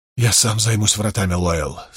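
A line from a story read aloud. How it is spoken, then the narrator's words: Weak mutter. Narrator (Russian): слабо пробормотал Перин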